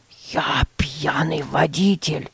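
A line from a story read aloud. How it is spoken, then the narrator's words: Secretive whisper. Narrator (Russian): прошептал он, чтобы не услышали родители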